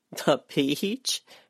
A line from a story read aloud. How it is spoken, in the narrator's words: Helen's laugh ended in a sigh